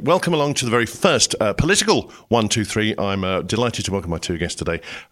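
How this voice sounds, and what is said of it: Husky, congested voice from a cold. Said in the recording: “me with Manflu ... As you can hear in my voice, I'm much sexier than normal. So if I sneeze occasionally”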